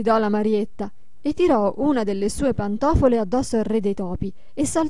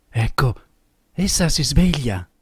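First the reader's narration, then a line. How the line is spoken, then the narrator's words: Low voice. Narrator (Italian): disse a bassa voce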